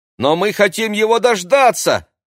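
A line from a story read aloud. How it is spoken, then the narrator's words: Shouting. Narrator (Russian): крикнул Максим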